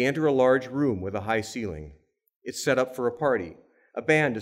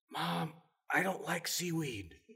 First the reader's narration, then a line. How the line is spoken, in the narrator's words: Rena whispers